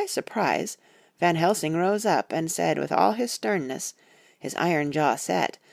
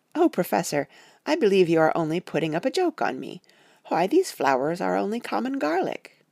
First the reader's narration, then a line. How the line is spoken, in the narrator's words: saying, with half laughter, half disgust